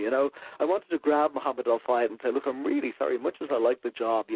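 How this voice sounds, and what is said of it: Softened Irish accent. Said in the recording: “my accent, actually, when I'm in the States, my accent changes, and I find it gets modified ... Irish people will say that my accent has softened a lot, whereas in America, I still sound like, you know, I come from abroad ... Irish accents”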